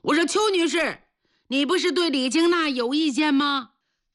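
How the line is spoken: Loud. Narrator (Chinese): 大声说

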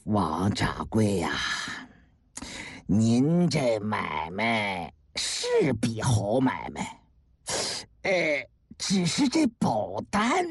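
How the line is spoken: Sighing. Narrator (Chinese): 郭德义叹了口气呀

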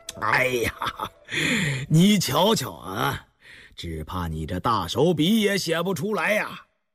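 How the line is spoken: Breathless with laughter. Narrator (Chinese): 康熙 忍不住失笑，到后来竟笑不可遏 噎着气说

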